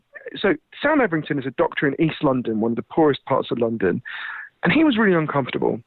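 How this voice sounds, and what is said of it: British accent. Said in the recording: “my weird Downton Abbey accent, I'm British”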